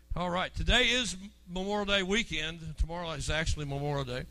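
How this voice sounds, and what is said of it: Voice in poor condition. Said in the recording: “My voice is still not really good”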